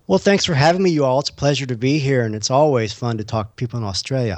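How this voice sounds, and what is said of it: Texan accent. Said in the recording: “Your text and accent is pretty cool as well.”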